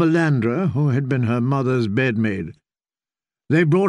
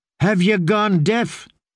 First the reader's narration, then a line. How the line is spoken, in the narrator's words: Ariane snapped